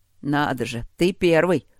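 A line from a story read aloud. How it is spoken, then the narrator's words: Approving snort. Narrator (Russian): одобрительно фыркнул Чет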